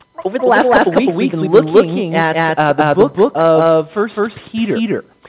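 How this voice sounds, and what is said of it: Hoarse, sore-throated voice. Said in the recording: “I've got a sore throat... if I lose my voice”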